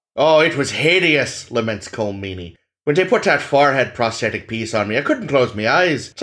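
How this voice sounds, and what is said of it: Irish-accented imitation of another person. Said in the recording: “read in your Cole Meany accent ... an Irish accent”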